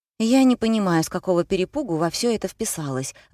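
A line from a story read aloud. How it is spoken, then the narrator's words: Sighing. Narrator (Russian): вздохнула Лена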